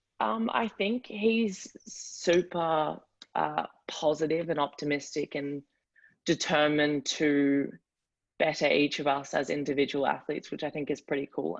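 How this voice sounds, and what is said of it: Strong Australian accent. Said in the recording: “you still maintain that good, strong Aussie accent”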